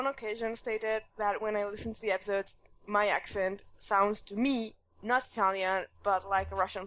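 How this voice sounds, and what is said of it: Usual voice. Nothing is said of it.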